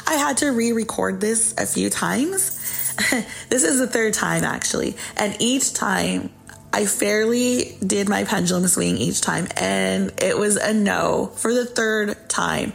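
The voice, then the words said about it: Voice slightly hoarse, not fully recovered. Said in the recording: “my voice is still not 100. I've been coughing up a storm.”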